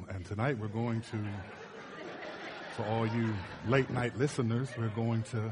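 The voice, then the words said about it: Creepy late-night radio DJ voice. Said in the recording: “Do I sound like a creepy... Now I sound like... Now it feels like it's 3 a.m. on the radio.”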